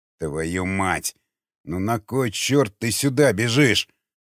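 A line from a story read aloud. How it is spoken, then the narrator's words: Through gritted teeth. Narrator (Russian): процедил сквозь зубы Григорий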